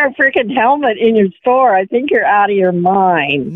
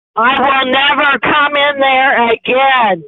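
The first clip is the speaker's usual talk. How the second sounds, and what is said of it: Yelling in a robotic voice. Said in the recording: “you sound like a robot. Why are you yelling? ... she started to yell like a robot”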